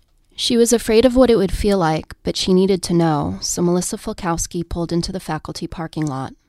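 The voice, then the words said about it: NPR-style radio reading voice. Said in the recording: “get my NPR voice going”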